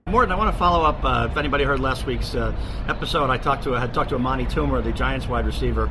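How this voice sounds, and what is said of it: Extremely hoarse voice. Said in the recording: “my extremely hoarse voice, as clearly I was partying a little too hard on this trip”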